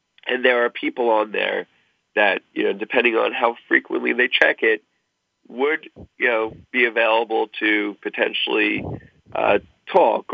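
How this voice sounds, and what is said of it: Strained, fading voice. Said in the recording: “you're losing your voice. I can tell.”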